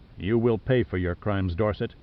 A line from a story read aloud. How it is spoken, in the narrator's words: Pitt said calmly, but with a cold edge in his voice